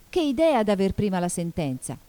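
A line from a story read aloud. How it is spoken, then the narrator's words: Exclamation. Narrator (Italian): esclamò Alice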